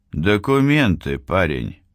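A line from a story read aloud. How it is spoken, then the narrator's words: Rude male reply. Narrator (Russian): ответил мужчина грубо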